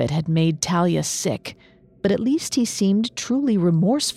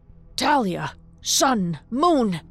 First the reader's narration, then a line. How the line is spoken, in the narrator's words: he cried